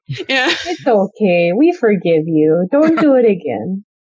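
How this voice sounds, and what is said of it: Put-on Fargo-style Upper Midwest accent. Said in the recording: “that's not a Canadian accent, ... it's very Fargo. ... It was very Fargo. ... That's what my family in Coopersville, Michigan sounds like.”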